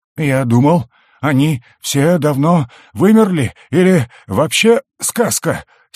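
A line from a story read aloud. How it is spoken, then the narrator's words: Wheezing. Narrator (Russian): сипел фонарщик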